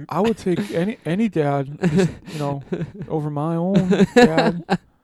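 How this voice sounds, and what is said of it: Imitates another person's voice. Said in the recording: “That impersonation... That was an impersonation of you.”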